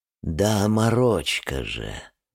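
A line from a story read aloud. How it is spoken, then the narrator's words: Tender, seductive reply. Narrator (Russian): нежно отвечает соблазнительная Анита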